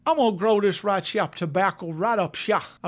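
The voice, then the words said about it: Put-on Southern accent. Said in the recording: “I'm pretty sure he didn't talk like that. ... I love all you people in the South. I'd say that out of love.”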